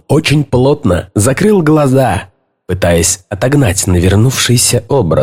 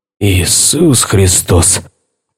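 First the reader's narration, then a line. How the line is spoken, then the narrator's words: Muttered. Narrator (Russian): пробормотал Дейл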